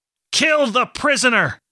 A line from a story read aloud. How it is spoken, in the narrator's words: Master Edling shouted above the din